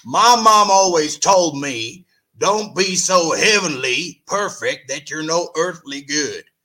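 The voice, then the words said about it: Deep husky Southern accent imitation. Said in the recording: “I just got to do this one in a Southern accent ... Kenny's got this deep husky Southern accent. So I'm going to try and mimic it.”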